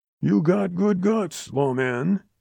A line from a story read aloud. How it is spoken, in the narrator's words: rasped